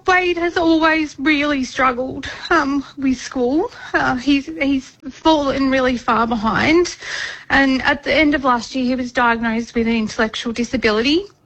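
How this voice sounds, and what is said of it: Emotional, choked-up speech. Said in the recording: “bit emotional”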